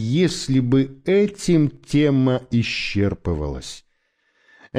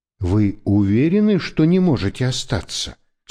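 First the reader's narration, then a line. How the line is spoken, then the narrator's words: Plain question. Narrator (Russian): спросила мама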